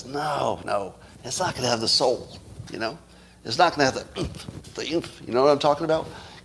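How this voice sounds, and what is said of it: Mocking impression of a musician. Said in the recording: “my impression of a very good artist who really knows music”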